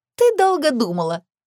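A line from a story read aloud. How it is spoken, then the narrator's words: Giggling. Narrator (Russian): хихикнула Эми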